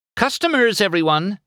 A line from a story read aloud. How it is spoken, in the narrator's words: Sally cried